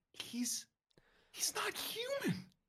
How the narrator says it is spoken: Pat gasps

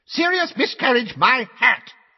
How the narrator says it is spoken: said Fudge at the top of his voice

